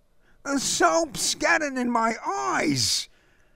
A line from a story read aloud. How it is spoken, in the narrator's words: Larry howled